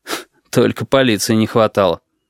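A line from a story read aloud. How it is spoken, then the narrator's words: Gloomy snort. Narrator (Russian): мрачно хмыкнул Тамару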